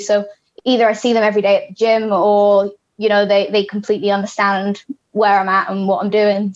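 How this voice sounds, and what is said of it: British accent. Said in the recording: “you're born in the UK. I'm sure everyone will gather that from your lovely accent.”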